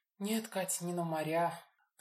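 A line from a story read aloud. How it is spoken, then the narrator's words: Sigh. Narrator (Russian): вздохнула Лина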